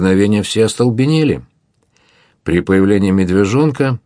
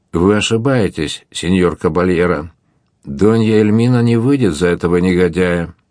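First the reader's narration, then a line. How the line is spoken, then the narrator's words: Calm. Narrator (Russian): он спокойно произнес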